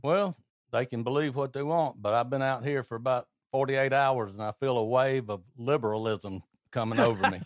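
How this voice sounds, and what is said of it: Noticeable regional accent. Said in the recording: “because of your accent, people say, "Oh, that guy's dumb."”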